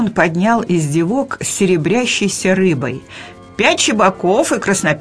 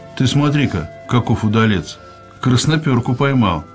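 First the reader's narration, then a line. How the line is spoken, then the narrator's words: Approving chuckle. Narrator (Russian): Федосеич одобрительно хмыкнул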